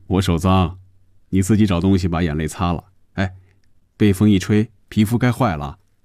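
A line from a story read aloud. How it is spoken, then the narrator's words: Laughing. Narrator (Chinese): 红军也笑了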